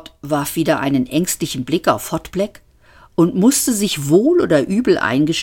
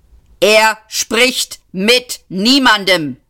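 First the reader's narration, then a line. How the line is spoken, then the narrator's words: Barked by bodyguard. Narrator (German): bellte der Leibwächter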